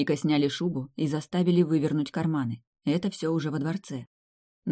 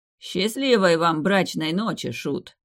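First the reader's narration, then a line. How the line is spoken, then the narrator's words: Smirking prince. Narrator (Russian): хмыкнул князь Литар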